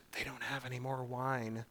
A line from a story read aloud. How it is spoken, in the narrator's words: she even whispers